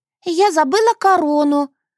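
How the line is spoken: Exclamation. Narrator (Russian): воскликнула она

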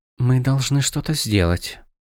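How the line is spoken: Hesitant whisper. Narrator (Russian): наконец прошептала

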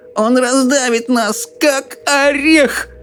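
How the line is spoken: Moaning old woman. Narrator (Russian): простонала бабушка Джорджина

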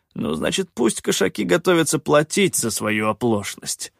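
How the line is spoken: Through gritted teeth. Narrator (Russian): процедил Рейкар

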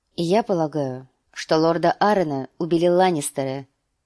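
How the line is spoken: Plain. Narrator (Russian): ответила Кейтелин

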